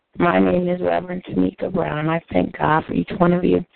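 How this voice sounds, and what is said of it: Scratchy, recovering voice. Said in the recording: “excuse my voice... I still have a bit of a scratchy voice”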